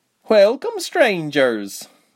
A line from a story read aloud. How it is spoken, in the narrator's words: she said merrily